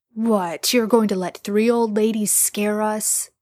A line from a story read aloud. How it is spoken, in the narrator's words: Dean scoffs